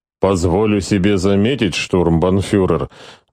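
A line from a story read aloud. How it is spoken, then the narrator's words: Gloomy opening. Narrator (Russian): мрачно начал беседу Визенмайер, как старший по чину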